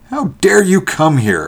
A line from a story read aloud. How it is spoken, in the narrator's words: asked Van Cheele furiously